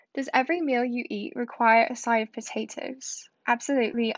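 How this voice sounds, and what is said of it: Attempted British English accent. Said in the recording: “read the rest of this quiz in my Irish accent, not my Irish, my English accent ... I don't even really know how to do a proper British accent, but I'm gonna try”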